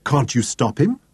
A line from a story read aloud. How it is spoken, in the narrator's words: Deborah asked anxiously